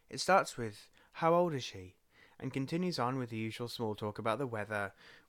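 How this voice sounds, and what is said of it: Foreign accent. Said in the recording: “My accent always gives me away as a foreigner.”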